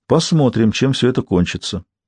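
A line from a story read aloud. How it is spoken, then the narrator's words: Surprisingly calm, to himself. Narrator (Russian): на удивление спокойно молвил себе граф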